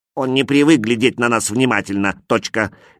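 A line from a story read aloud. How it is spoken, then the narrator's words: Angry. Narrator (Russian): сердито сказал другой человечек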